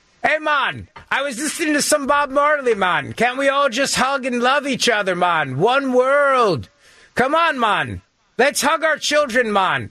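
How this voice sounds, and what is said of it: Put-on accent. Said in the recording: “what's the accent”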